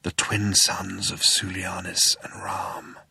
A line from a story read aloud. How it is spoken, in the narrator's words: breathed Zaphod